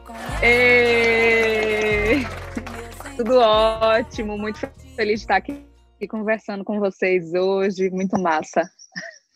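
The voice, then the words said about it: Regional Brazilian accent, upper-middle-class. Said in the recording (Portuguese): “é minha conterrânea, tem esse sotaque, classe média altíssima”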